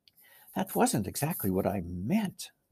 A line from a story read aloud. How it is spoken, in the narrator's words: whispered Susan to Lucy